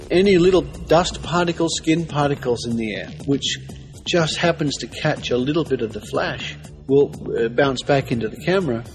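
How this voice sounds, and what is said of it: Australian accent. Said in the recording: “They're a team of Australians ... plus the kind of accent that you just have to love.”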